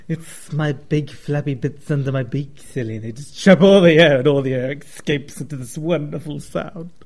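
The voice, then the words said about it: Silly turkey character voice with lisp. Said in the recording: “Why is your turkey got a lisp? ... talking like a freak”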